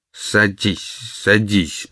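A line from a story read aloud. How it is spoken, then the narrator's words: Muttering. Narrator (Russian): пробормотал он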